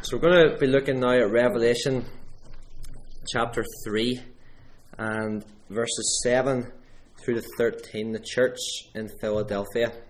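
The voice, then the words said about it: Strained, worn-out voice. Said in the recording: “Excuse my voice. ... I'm doing too much shouting at children during the week.”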